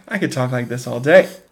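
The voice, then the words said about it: Fancy, snooty affected voice. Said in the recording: “what is that affectation they're using? ... They're just so fancy ... very snooty sort of nerd ... he's doing a good job. And yeah, it's a strange affectation.”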